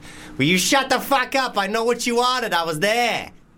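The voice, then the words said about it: Put-on Boston accent. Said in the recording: “do a Boston accent ... That's quite good ... you did a good accent”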